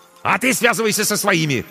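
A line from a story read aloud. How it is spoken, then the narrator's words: Barking. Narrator (Russian): рявкнул ей Корнейчук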